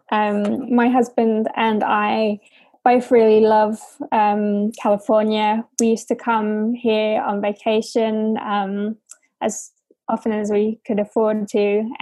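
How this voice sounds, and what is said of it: British accent. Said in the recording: “Because you are British. ... hence the accent.”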